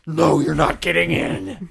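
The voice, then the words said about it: Demon voice. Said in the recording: “just that voice poured out ... another demon voice”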